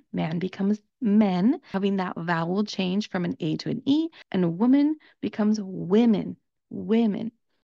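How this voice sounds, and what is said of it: Southern Californian American English accent. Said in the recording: “I'm from Southern California, and that's the accent that I speak with.”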